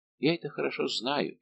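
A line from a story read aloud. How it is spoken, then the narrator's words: Sad. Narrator (Russian): печально промолвил Безмо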